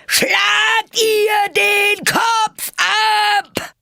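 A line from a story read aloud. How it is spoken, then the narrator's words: Queen roaring loudly. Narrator (German): brüllte die Königin so laut sie konnte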